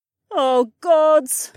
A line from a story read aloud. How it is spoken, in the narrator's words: groaned